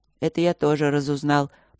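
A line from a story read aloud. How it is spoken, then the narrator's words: Gloomy. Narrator (Russian): проговорил Нат мрачно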